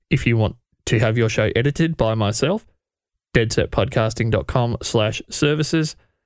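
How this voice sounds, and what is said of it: Thick accent. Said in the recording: “he's challenging me for the thickest accent in podcasting about podcasting”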